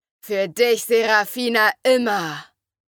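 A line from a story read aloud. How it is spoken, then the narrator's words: Thunderous roar. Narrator (German): brüllte mit einer Präsenz, die wie ein donnerndes Gewitter war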